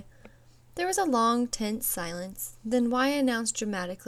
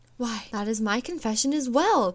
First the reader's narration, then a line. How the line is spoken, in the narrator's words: gasped X